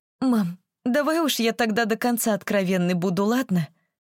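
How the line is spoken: Resolute after deep sigh. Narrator (Russian): Глубоко и легко вздохнув, решилась она

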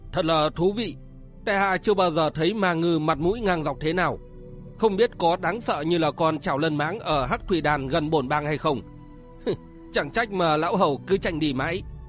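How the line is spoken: Booming laughter. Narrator (Vietnamese): Lực Bạt Cửu Nhạc Du Đại Nguyên chợt cười to một tràng nói

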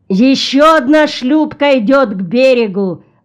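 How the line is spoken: Shout. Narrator (Russian): закричал Гуват

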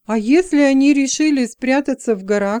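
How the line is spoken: Plain. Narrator (Russian): спросил Лайтл

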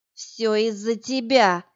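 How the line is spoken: Hissing. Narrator (Russian): зашипела она

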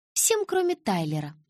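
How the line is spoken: Calm correction. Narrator (Russian): спокойно поправила Анджела

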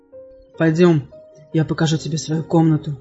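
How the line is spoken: Suddenly hoarse mutter. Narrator (Russian): неожиданно севшим голосом пробормотал

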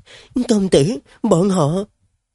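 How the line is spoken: Frightened, panicked. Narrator (Vietnamese): đầy cái vẻ hoảng hốt sợ hãi, nói với Tân sĩ quần rằng

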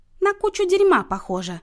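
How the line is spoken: Joyful announcement. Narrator (Russian): радостно возвестила Люся

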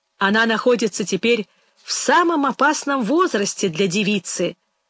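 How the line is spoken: Old man laughing. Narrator (Russian): сказал старик, смеясь своей же шутке

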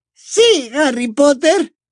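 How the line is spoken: Excited exclaiming. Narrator (Spanish): exclamó Dobby con un brillo de emoción en los ojos

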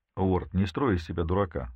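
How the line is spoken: Calm. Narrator (Russian): спокойно ответил он

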